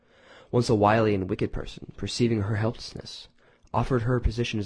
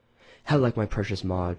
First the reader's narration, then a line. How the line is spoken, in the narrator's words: sighed